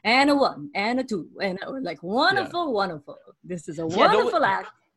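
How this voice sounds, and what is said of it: Odd German-tinged accent. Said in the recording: “famously known for having this odd accent ... raised in a German community in America”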